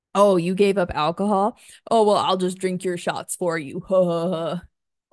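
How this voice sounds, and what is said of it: Mocking lines in a deep voice. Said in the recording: “I'm saying these with a deep voice.”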